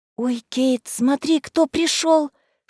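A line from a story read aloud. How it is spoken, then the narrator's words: Whisper. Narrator (Russian): шепнула мне Марселла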